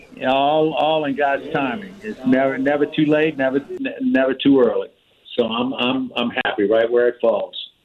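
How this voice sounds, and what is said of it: New Orleans accent. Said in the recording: “listen to his voice. You know damn well where he grew up. He ain't lost that accent from ... New Orleans. You could tell exactly that.”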